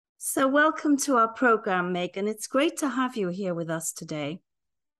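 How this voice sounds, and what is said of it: Raspy, hoarse voice. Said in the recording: “Please forgive my raspy voice. I have a nasty cold.”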